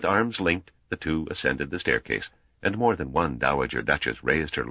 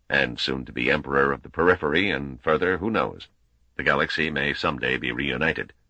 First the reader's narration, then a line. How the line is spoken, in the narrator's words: Wina's added blandly